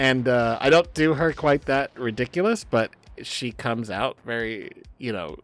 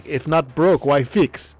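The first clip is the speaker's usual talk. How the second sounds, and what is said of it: Bad put-on Russian accent. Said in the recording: “joking with myself in a bad Russian accent ... doing a bad Russian accent”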